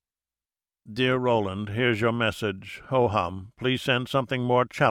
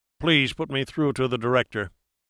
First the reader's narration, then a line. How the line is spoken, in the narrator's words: barked into the phone